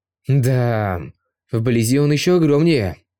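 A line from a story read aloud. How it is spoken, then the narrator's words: Exclaiming after deep breath. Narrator (Russian): Глубоко вздохнув, Вид … воскликнул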